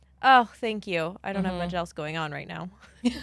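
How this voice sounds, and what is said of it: Usual voice. Nothing is said of it.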